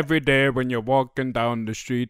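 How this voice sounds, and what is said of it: Put-on Jamaican accent. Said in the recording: “stop doing a Jamaican accent”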